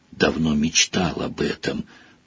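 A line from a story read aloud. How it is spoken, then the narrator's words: Whisper in ear. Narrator (Russian): прошептал Рон в ухо Гарри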